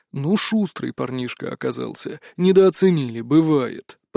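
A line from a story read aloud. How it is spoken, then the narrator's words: Grumbling. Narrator (Russian): проворчал маг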